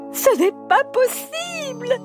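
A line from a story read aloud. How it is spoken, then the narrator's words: Desperate queen exclaiming. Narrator (French): s'exclama la reine au comble du désespoir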